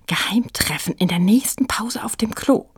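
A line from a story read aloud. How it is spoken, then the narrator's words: Whisper. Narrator (German): flüsterte sie Frieda zu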